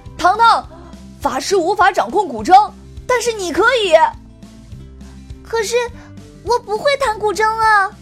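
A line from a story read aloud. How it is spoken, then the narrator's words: Panicked shout. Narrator (Chinese): 情急失控的 Kevin 慌忙喊道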